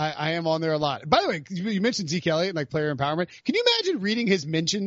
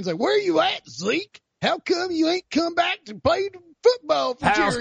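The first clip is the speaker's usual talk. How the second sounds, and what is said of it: North Carolina redneck accent. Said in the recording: “my North Carolina redneck impression”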